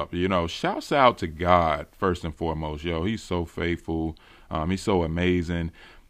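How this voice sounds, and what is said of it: Excited, pumped-up voice. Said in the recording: “If you can hear it in my voice, man, I'm pumped up.”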